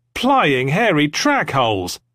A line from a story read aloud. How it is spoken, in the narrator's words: someone shouted